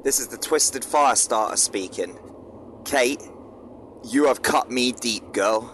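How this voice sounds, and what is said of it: Put-on Dartmoor accent, character voice. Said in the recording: “Is that a Dartmoor accent?”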